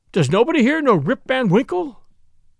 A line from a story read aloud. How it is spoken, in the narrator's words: he cried out in despair